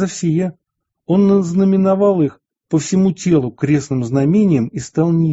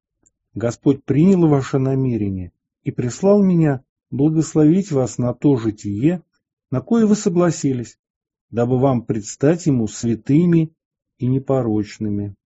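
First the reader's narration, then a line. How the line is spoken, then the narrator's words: Gentle smiling speech. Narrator (Russian): Улыбаясь, он ласково проговорил им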